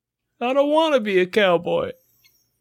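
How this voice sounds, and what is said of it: Imitates another person's voice. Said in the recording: “We can do Jerry Seinfeld. We can do that in a voice... That was Jerry.”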